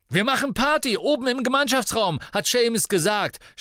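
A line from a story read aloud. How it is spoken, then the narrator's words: Exuberant shout. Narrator (German): schrie Dean ausgelassen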